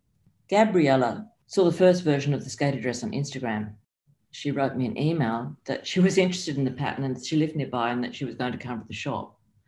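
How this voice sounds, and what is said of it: Australian accent. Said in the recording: “you're an Australian with an Australian accent.”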